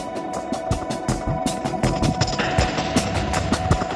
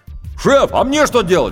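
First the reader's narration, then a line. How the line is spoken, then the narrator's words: Shout from below. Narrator (Russian): крикнул снизу рулевой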